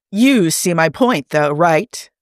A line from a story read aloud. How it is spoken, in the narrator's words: Chris exclaims